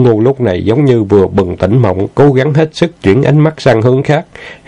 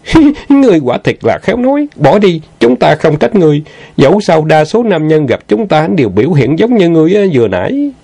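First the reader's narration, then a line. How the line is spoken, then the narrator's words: Girl giggling. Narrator (Vietnamese): hồng y thiếu nữ bắt đầu cười khúc khích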